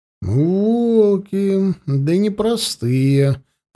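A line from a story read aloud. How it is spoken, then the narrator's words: Drawling. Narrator (Russian): протянул Дичка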